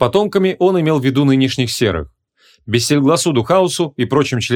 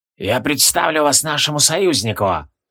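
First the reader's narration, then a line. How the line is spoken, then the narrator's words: Wheezed. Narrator (Russian): просипел Тивилдорм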